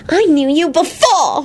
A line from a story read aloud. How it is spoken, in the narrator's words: she said triumphantly